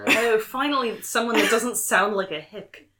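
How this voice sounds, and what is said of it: Character voice. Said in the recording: “my character voice.”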